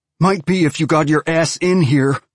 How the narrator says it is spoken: Basia shouted

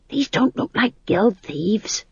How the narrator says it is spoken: he hissed

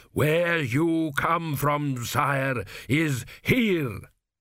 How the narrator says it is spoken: thundered Dios

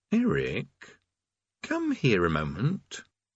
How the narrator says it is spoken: he said quietly

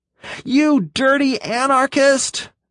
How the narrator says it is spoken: Green screamed

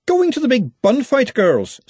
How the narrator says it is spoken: said Verity cheerfully

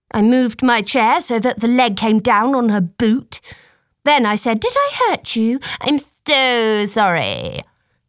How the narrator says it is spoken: exhaled to keep from laughing

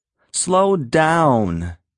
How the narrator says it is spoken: shouted angrily

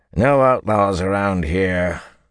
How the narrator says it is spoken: a grizzled guard said gruffly

